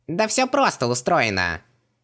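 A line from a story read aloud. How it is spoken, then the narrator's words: Cheerful squeak. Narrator (Russian): Весело пискнул Хубаксис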